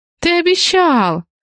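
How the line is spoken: Louder exclamation. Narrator (Russian): громче воскликнула Раиса

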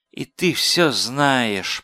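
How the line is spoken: Melancholy mutter through teeth. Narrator (Russian): тоскливо и буркнул сквозь зубы

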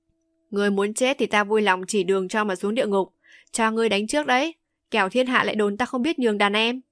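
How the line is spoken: Loud laughing. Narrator (Vietnamese): Hàn Thiên Khánh cười lớn

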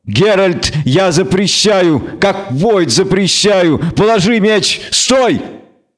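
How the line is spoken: Child shouting, muffled. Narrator (Russian): Марилька кричала, прикрыв мордашку ручонками

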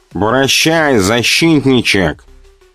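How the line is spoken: Nasal, nose pinched. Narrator (Russian): Зажимая нос левой рукой, прогнусавил

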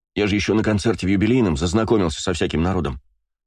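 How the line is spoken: Plain. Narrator (Russian): сказал Астарот

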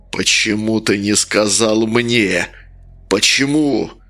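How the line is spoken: Growling. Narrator (Russian): прорычал он

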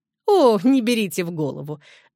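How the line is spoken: Laughing. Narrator (Russian): рассмеялась мадам Ротиньоль

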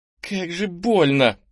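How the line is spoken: Groaning. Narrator (Russian): простонал Кенни

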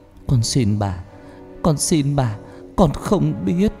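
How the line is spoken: Trembling voice. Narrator (Vietnamese): Cô nói bằng giọng run rẩy

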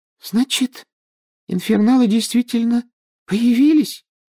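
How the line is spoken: Thin little voice, asking. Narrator (Russian): тоненьким голоском спросила Парвати Патил

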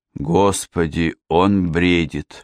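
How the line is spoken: Moaning. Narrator (Russian): простонала Эрминтруда

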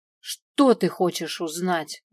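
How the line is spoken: Angry spat words. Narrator (Russian): зло выплюнула я

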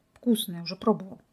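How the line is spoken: Gruff mutter. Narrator (Russian): буркнул Михаил, наклонившись к ручью

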